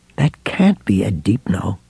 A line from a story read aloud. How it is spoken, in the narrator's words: Ralph murmured